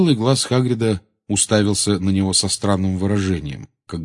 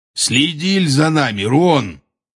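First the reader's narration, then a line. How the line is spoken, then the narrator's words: Rough. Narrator (Russian): грубо сказал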